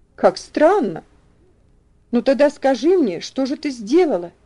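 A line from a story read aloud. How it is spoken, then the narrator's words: Curious exclamation. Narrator (Russian): Опять воскликнула Люси, не скрывая любопытства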